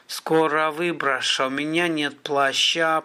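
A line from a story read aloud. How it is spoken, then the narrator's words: Moaning. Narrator (Russian): простонал Гарин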